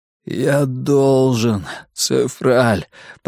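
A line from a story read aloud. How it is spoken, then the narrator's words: Hoarse wheeze. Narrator (Russian): прохрипел он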